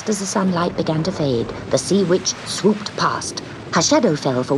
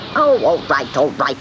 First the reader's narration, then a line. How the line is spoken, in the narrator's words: snapped the witch